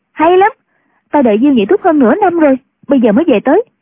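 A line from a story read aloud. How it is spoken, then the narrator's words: Joyful exclamation. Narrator (Vietnamese): Chu Cửu Chân cảm mừng, reo lên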